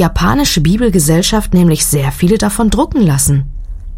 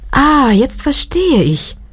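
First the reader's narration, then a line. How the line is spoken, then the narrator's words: Called out. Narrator (German): rief Hogai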